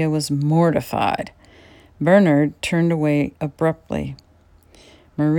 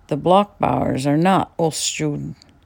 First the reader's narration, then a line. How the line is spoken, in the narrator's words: said coldly